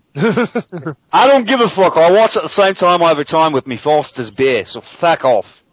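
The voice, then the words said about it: Fake Australian accent. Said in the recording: “probably the best fake Aussie accent I've ever done on this show ... It's one of your better attempts.”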